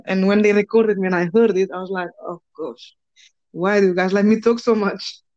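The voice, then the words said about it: Foreign accent with rolled r. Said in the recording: “I had an accent ... It's got a nice little tongue roll to it”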